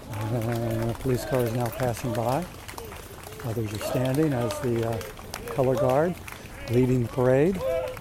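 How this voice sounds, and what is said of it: Quiet, lowered speaking voice. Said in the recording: “talk in my inside voice.”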